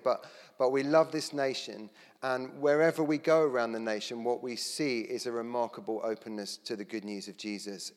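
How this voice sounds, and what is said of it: Non-Scottish accent. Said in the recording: “You can tell by the accent that, you know, we weren't perhaps originally born here”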